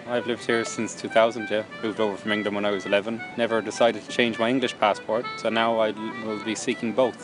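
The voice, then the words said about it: Irish accent. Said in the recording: “you have an Irish accent.”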